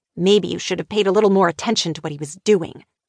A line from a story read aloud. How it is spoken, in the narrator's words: Meredith snapped